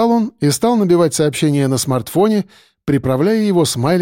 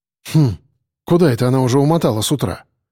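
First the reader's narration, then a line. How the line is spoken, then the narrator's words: Snorting. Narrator (Russian): хмыкнул Саня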